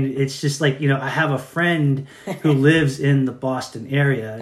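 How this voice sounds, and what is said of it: Usual voice. Nothing is said of it.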